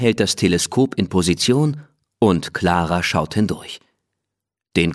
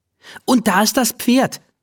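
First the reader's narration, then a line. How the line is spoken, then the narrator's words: Called out. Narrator (German): ruft sie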